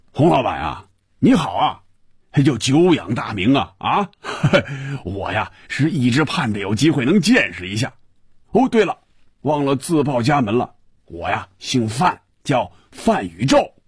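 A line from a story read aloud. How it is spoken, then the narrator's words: Laughter, then muffled booming voice. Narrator (Chinese): 电话里…一串笑声，然后是有些瓮声瓮气的声音说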